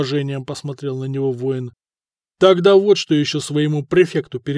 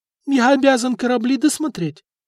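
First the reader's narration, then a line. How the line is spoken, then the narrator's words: Brave squeak, official. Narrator (Russian): отважно пискнул чиновник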